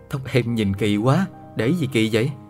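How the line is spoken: Laughing loudly. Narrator (Vietnamese): cười lớn nói

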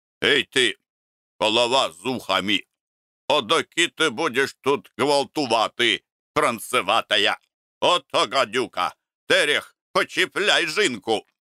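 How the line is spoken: Stern old man. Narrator (Russian): старый коваль строго сказал Лукерье

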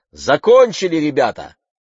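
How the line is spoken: Shout. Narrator (Russian): крикнула

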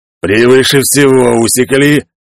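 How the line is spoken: Menacing growl. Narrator (Russian): угрожающе прорычал он

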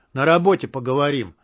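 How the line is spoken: Angry. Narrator (Russian): зло пообещал неизвестный

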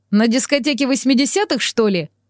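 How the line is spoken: Wry snort. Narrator (Russian): хмыкнул

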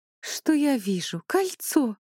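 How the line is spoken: Excited exclamation. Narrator (Russian): воодушевленно воскликнула

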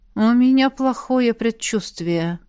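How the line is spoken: Sigh. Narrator (Russian): вздохнула Элисандра

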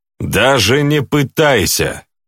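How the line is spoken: Shout. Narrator (Russian): крикнул

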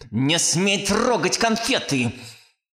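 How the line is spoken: Angry hiss. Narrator (Russian): Зло прошипела тетка

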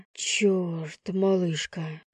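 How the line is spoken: Breathless exclamation. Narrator (Russian): выдохнул Лев

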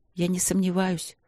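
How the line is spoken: Quiet, after a pause. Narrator (Russian): тихо сказала она через некоторое время

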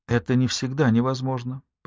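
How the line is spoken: Soft. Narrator (Russian): произнесла я мягко

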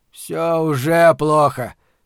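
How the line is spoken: Grumble. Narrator (Russian): проворчал Торсит Магнессон, начальник управления общественной безопасности

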